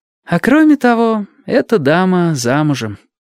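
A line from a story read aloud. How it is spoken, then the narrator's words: Slightly tired. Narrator (Russian): немного устало добавила сестра Тамура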